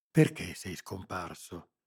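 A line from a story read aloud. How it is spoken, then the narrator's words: Whispered question. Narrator (Italian): chiesi bisbigliando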